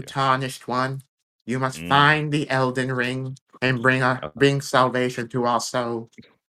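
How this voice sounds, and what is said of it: Vague put-on British accent. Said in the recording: “It's a vague British accent.”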